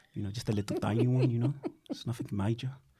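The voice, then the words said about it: Put-on South African accent. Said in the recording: “A little bit of a South African accent ... That sounds like a mixture of Scottish slash... what else does it sound like? Liverpool, Birmingham.”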